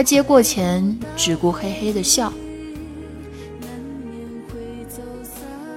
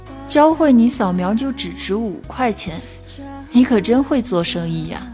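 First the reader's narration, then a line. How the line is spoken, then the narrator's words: Sighing. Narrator (Chinese): 我不禁叹了口气 边说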